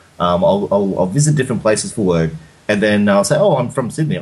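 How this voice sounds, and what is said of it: Australian accent. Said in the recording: “you haven't lost the Aussie accent to this day”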